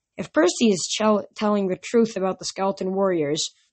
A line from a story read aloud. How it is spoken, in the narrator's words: she said